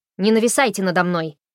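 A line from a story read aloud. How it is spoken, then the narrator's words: Barking. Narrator (Russian): рявкнула она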